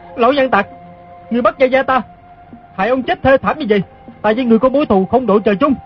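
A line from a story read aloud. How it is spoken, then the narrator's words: Furious shout. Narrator (Vietnamese): Đoàn Dự cả giận quát lên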